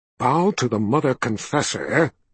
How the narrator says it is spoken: he hissed

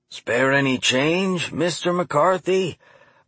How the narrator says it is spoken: a croaky voice asked

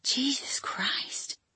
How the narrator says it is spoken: he whispered

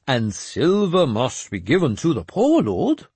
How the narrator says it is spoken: Jeremias said happily

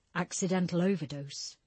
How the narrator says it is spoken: Barker mumbled, almost to himself

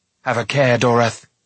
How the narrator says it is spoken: Taran cried

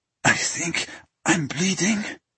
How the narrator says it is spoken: he whispered when the fit had passed

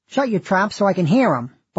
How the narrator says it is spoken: barked Mrs

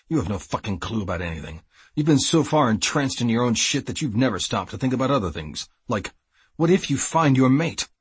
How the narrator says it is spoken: he snapped

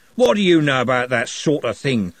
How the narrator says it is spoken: growled Andy

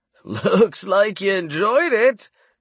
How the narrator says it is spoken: Torrance laughed

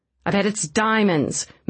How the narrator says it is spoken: Mavis said, as her patience snapped

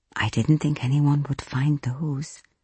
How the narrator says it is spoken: Rita whispered

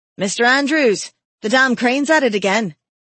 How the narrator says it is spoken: shouted the workman

